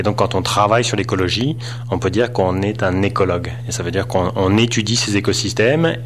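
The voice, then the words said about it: Non-local French accent. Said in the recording (French): “Comme on l'entend ton accent, t'es pas d'ici, toi.”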